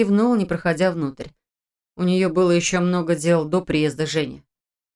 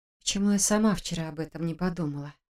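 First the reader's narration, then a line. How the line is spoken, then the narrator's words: Upset mutter. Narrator (Russian): расстроенно пробормотала Саша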